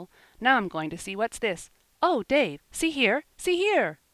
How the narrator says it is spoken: he cried in intense excitement

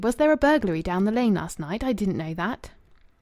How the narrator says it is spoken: exclaimed Louis

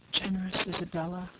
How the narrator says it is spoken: murmured Dunwoodie

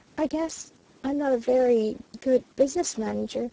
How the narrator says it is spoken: faltered the red-lipped voice with incongruous pathos

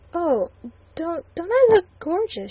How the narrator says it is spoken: she stammered

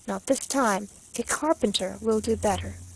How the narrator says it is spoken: said to her very coolly

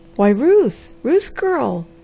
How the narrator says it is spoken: he exclaimed

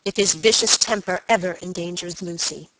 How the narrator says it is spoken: answered Sir Michael angrily

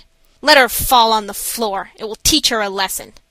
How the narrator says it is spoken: the nurses roughly said

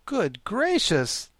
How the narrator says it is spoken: the Scarecrow exclaimed at hearing this

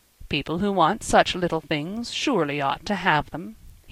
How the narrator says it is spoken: he said dryly

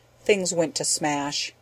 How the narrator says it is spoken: he said quietly and sadly

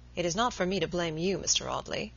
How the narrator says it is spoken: he said

